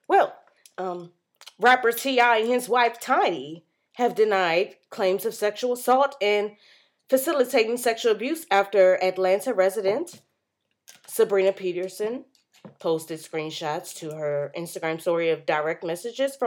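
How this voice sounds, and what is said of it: Newscaster voice. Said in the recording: “put on my newscaster voice.”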